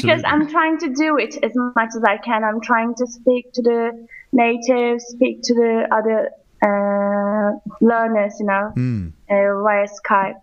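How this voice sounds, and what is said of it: English-sounding accent with slight Turkish. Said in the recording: “it's not completely English. There's a little bit of Turkish in there, but it does sound quite English ... I think that you've got a bit of that accent, actually ... estuary English accent, which is a sort of southeastern, not posh, but not Cockney, somewhere in the middle”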